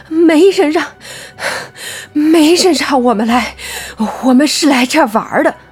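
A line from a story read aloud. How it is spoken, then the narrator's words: Panting heavily. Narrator (Chinese): 黄毛喘着粗气道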